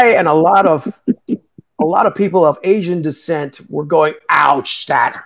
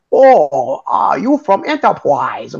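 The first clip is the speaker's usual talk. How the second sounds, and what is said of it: Mock East Asian accent. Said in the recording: “talking in a pseudo Oriental accent”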